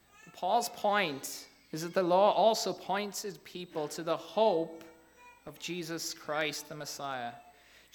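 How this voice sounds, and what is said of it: Slight Irish accent. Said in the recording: “I'm from Ireland. I don't know if you picked that up in my slight brogue.”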